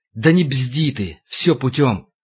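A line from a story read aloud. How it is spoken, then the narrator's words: Quiet hiss. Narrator (Russian): коротко тихо прошипели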